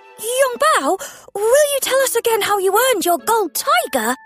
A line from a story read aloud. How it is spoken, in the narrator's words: Percy asked excitedly